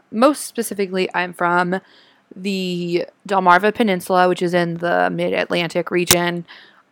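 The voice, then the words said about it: Mid-Atlantic American accent. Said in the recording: “the way I talk and my speaking affect has a lot of influence from a lot of different places, like the Eastern Shore of Maryland, Baltimore, Philadelphia”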